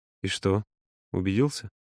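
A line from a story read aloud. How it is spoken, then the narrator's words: Soft laugh. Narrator (Russian): Юра негромко рассмеялся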